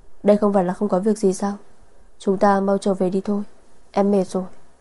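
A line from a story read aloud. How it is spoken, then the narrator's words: Soft laugh. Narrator (Vietnamese): Vân Sở cười khẽ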